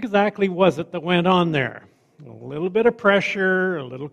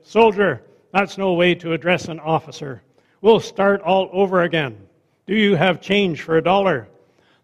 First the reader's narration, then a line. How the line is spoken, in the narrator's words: The lieutenant drew himself up stiffly and said